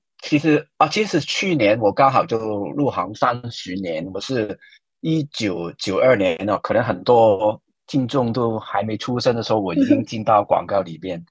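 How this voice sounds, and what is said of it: Hong Kong-accented Mandarin. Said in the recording (Chinese): “我的口音一听应该也听出来是港普嘛，就是从香港来”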